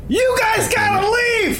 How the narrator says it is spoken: I yell

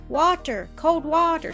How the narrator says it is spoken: sobbed Don

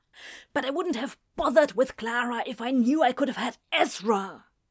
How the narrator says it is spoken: he hissed back

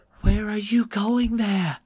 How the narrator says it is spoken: He cried

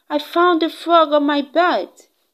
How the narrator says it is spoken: I yelled out

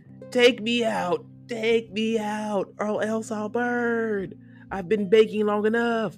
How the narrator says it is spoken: the bread was yelling

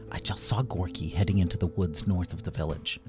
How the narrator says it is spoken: Versa whispered to her friends

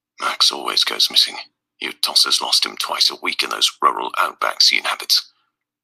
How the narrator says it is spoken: Arthur said quietly

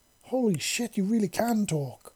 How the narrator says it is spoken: the male exclaimed in surprise, making his voice go even higher than before

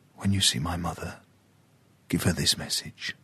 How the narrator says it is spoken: whispered

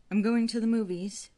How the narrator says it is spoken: called out for the fifth or sixth time in 2 weeks

